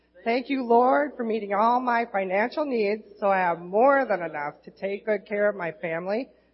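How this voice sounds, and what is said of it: Minnesota accent. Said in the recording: “Sorry about the Minnesota accent”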